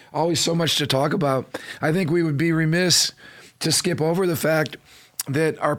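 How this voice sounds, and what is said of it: Squeaky, strained voice. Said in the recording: “squeaky voice ... It actually sounds better today than yesterday ... I don't sound so good ... the nuisance of my voice”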